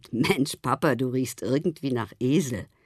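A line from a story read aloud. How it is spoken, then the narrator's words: Laughing. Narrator (German): Theo sagte lachend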